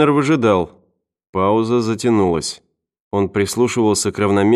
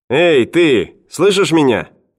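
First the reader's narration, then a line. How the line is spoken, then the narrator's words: Young man shouting. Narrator (Russian): крикнул парень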